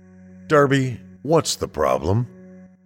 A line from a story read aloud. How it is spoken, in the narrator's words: Lorraine sighed